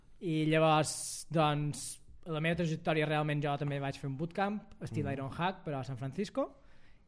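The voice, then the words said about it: Mallorcan Catalan accent. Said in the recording (Catalan): “El teu accent és molt Benjamí Villoslada, eh? ... és el que tenim, els mallorquins.”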